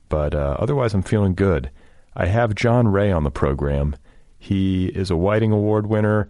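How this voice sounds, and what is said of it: Congested voice from a cold. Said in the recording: “I have a bit of a cold. I don't know if you can hear it in my voice... I'm a bit congested.”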